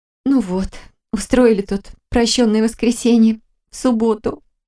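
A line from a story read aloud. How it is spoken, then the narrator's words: Nervous laugh. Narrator (Russian): нервно рассмеялась я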